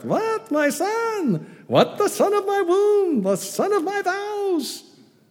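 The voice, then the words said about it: Female Jewish accent. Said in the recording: “You really need to read it with a female Jewish accent when you read this part.”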